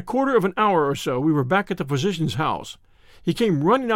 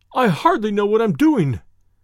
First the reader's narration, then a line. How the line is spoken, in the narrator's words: he cried